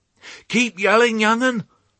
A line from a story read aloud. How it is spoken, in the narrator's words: bawled Ma as she ran beside Babe